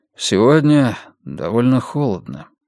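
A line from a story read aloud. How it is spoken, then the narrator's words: Quiet. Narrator (Russian): тихо сказал Эрик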